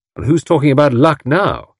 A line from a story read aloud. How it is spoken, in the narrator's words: asked Tommy triumphantly